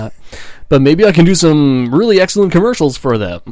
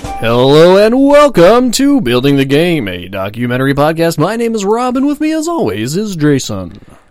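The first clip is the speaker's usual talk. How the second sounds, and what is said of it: Overdone announcer voice. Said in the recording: “I'm working on my announcer voice. ... I'm working very hard on my announcer voice. ... a little overdone there.”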